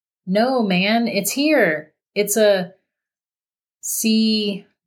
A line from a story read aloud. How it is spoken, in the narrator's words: Ben slowly said